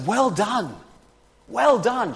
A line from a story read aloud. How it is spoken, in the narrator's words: shouts encouragement, and says